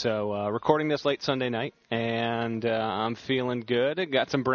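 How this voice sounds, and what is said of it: Usual voice. Nothing is said of it.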